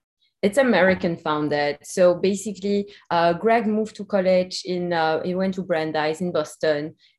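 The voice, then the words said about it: Belgian accent. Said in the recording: “You can hear my accent. I'm also from Belgium”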